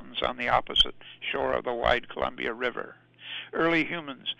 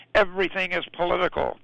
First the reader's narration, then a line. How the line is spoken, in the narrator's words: the dish dog shouted